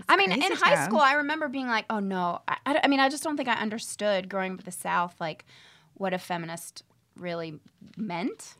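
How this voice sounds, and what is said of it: Southern US accent. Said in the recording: “What part of the South are you from? ... I'm from Nashville. ... I love your accent.”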